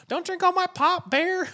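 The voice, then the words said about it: Put-on Southern American accent. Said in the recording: “I did a southern accent”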